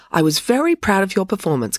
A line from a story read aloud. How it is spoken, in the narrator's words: continued Loretta brightly